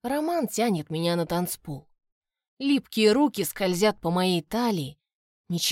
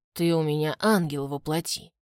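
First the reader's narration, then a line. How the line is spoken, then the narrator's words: Hoarse. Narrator (Russian): хрипит он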